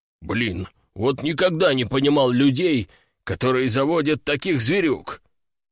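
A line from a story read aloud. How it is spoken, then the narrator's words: Disgusted, through teeth. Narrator (Russian): Брезгливо процедил он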